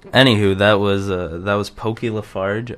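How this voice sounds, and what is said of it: Speaking in a put-on accent. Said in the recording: “I don't know why I'm talking with that accent.”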